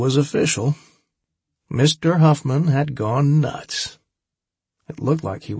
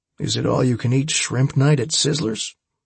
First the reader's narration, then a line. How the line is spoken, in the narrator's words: I replied calmly